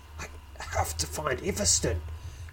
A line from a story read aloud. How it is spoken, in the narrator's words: growls Balagor